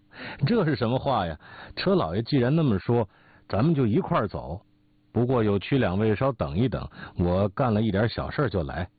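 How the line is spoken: Hearty laughter. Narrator (Chinese): 董贤哈哈大笑

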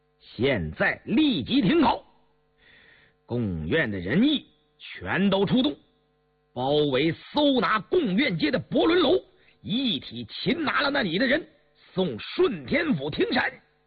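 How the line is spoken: Stern. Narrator (Chinese): 杨明石厉声道

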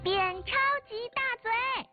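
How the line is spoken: Loud shout. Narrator (Chinese): 小豌豆大喊

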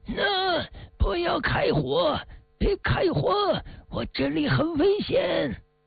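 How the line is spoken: Hysterical yelling. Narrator (Chinese): 里面传来了这老毛利歇斯底里的喊叫

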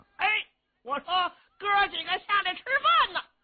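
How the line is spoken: Loud shouting. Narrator (Chinese): 程咬金高声喊嚷

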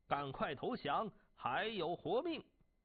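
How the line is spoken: Shouting. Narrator (Chinese): 晋国大将胡射孤喊道

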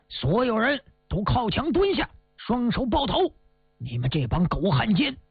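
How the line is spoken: Loud shouting. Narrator (Chinese): 韩猛大声的喊

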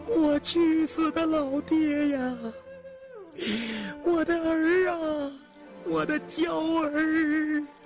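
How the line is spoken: Wretched wailing. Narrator (Chinese): 凄惨的哭声

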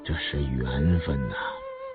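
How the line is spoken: Surprised murmuring. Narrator (Chinese): 吴思道惊异地喃喃地说道

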